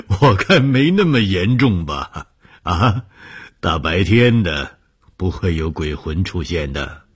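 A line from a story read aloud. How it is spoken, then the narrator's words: Laughing. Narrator (Chinese): 红鱼笑了说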